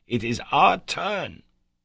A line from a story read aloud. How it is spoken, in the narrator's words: he cried